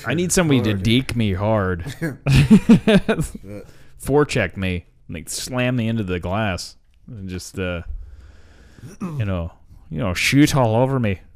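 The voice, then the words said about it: Poor attempt at Canadian accent. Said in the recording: “I don't know what fucking accent that was ... I can't do a Canadian accent at all.”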